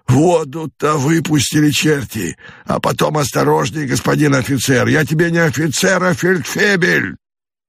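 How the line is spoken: Irritated hoarse voice. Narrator (Russian): раздается совершенно такой же раздраженный и почему-то такой же хриплый голос

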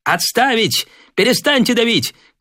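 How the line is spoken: Shouting. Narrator (Russian): крикнул Девятаев

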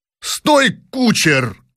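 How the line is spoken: Shouted. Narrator (Russian): крикнул, наконец, князь Щербатов

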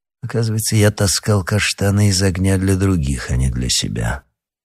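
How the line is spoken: Grumbled. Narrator (Russian): проворчал Рошфор

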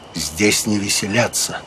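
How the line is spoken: Quiet. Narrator (Russian): тихо сказал

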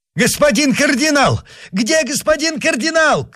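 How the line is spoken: Shouting. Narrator (Russian): кричал он

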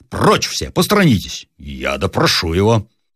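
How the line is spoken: Interrupted in a pompous voice. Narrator (Russian): прервал важным голосом гренадер

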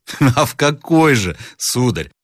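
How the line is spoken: Mocking question. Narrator (Russian): спросил насмешливо Рославлев

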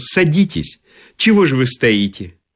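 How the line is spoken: Sighing, then speaking. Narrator (Russian): Хозяйка вздохнула и сказала блондину

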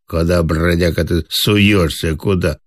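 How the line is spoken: Dog growling. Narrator (Russian): зарычала

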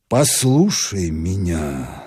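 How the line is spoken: Very gentle. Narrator (Russian): сказал он так мягко, как только мог

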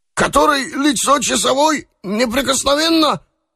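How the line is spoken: Confused babbling. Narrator (Russian): залепетал наобум татарин

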